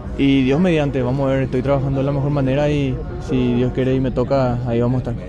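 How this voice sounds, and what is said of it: Regional Spanish accent. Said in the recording (Spanish): “Linda la tonada”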